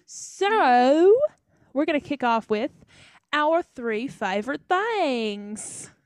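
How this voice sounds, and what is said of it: Mixed British and Southern accent. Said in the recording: “That was a British accent, but also a Southern accent.”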